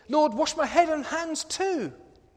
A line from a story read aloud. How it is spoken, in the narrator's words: blurts out impulsively